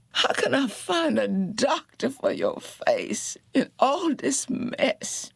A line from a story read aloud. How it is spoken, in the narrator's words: Janie wailed